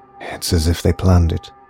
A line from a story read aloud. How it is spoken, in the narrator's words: whispered Alex to himself